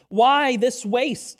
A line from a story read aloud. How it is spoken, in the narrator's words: they asked